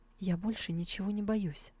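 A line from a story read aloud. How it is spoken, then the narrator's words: Whispered reply. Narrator (Russian): Сяндзю прошептала в ответ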